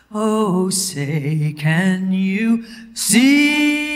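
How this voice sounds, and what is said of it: Drawn-out showy anthem singing. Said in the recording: “my impression of every woman that has ever sung the national anthem at the Super Bowl ... They go on for days”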